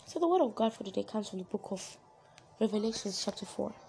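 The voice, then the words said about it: Hoarse voice. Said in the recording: “pardon me for my voice. I may sound a bit hoarse. It's because, for some reason, I just have a cold”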